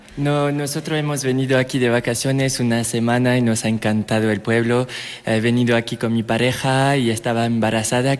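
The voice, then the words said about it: French accent speaking Spanish. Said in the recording (Spanish): “Yo creo que lo vamos a saber un poco por su acento ... es de Francia.”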